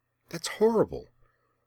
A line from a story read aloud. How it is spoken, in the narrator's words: Rian exclaimed, though she kept her voice down